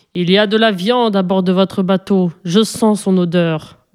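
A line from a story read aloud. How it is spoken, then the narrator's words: Growled by monster. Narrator (French): gronda le monstre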